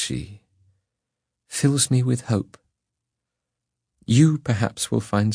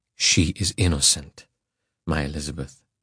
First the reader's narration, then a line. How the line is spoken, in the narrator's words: said I